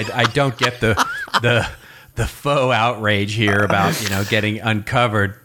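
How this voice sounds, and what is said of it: Usual voice. Nothing is said of it.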